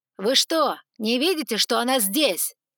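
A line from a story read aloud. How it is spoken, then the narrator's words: Ringing, commanding question. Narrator (Russian): спросил он звонким голосом, но с такой интонацией, что все на мгновение замолчали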